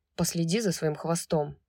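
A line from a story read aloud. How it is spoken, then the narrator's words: Grumbling. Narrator (Russian): проворчал он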